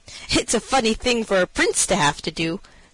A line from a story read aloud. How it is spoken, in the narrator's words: said he, laughing